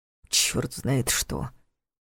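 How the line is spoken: Grumbled. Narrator (Russian): снова проворчал Соучек

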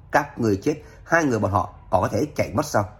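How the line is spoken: Harsh, stern. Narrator (Vietnamese): Tôn quản gia gằn giọng nói

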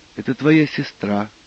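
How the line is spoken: Mumbled. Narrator (Russian): пробормотал

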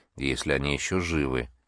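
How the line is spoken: Quiet addition. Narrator (Russian): тихо добавил Керк

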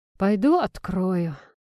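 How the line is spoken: Sigh. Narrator (Russian): вздохнул Игорь

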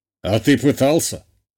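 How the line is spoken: Father snorting. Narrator (Russian): хмыкнул отец

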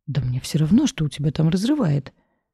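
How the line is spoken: Panicked shriek. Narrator (Russian): взвизгнула, покрываясь волной колючих мурашек

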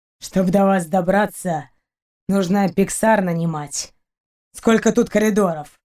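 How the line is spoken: Grumbled. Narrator (Russian): проворчал Рианец

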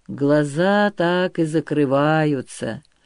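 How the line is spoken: Sleepy voice. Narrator (Russian): говорил один из них сонным голосом

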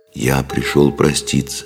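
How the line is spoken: Sad. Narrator (Russian): произнес он печально

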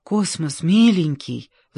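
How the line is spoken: Pleading. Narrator (Russian): взмолилась Аня

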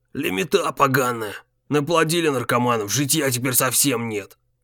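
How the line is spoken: Irritated old man's low grumble. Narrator (Russian): Заворчал в полголоса старик, стравливая закипающее раздражение

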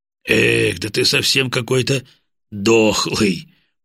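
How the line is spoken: Grumbling. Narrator (Russian): проворчал Бат

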